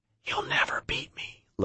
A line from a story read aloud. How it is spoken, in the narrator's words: Lopez whispered